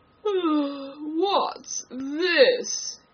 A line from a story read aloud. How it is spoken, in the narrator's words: he said, speaking in a deep, hollow tone that sounded like the tolling of a great bell